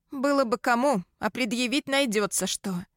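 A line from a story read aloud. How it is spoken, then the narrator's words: Snorting smirk. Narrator (Russian): хмыкнула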